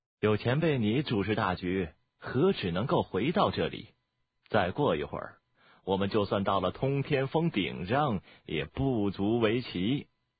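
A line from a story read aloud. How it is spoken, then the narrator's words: Calm, faint smile. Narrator (Chinese): 鬼王淡淡的微笑说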